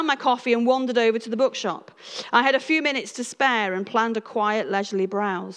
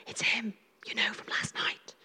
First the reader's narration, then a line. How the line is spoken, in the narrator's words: others whispered